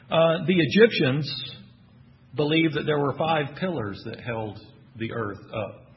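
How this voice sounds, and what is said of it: Texan accent. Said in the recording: “That's not pillows. I know that's not my Texan accent coming out.”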